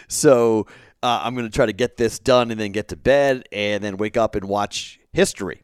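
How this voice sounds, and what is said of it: Tired, strained, worn voice. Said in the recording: “I am really tired... you can probably hear it in my voice. I've been talking all day and yelling all day, and my voice hurts... I got to rest my voice”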